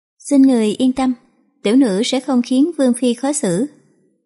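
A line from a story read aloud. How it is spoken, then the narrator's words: Soft feigned laugh. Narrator (Vietnamese): Giang Tử Lâu giả vờ không biết, chỉ cười khẽ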